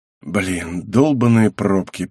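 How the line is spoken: Muttering. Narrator (Russian): пробормотал я

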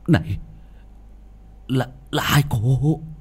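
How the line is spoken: Stammering. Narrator (Vietnamese): Quỷ binh lắp bắp

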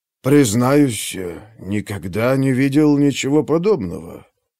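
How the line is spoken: Reverent, breathed. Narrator (Russian): с благоговением выдохнул Перикл

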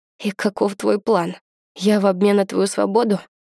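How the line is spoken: Sleepy question. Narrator (Russian): Сонно спрашиваю

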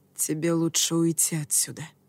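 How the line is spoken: Quiet. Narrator (Russian): тихо сказал я

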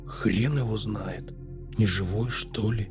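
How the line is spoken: Whispered reply. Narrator (Russian): прошептал в ответ

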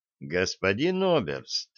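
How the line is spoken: Calm reply. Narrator (Russian): спокойно ответил контрразведчик

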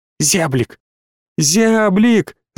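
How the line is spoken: Shouting through glass. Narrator (Russian): закричала Алина сквозь стекло

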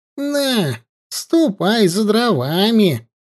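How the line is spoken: Creaky voice. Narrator (Russian): проскрипела

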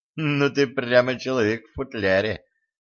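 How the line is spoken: Snorted. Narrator (Russian): фыркнула она

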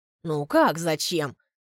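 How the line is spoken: Gentle smiling voice. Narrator (Russian): улыбается она мягко

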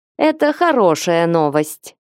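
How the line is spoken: After laughing. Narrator (Russian): отсмеявшись, произнесла она

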